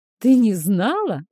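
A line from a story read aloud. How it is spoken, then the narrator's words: Laughing. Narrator (Russian): рассмеялся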